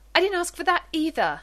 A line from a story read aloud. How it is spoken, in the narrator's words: John half shouts